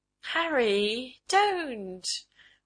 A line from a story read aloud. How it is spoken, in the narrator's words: warned, laughing up at him